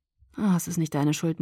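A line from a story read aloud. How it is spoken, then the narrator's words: Murmuring. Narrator (German): murmelte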